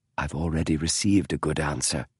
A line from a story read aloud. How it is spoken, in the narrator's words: Holmes said softly